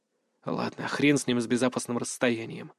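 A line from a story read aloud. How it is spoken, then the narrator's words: Muttered. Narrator (Russian): пробормотал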